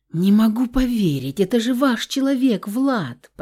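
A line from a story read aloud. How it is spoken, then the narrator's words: Exhausted moan. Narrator (Russian): простонала в изнеможении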